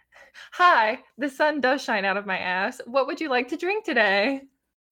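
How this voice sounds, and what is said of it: Mock cheerful customer service voice. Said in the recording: “customer service voice... when I was working at the coffee shop, it was a lot more like”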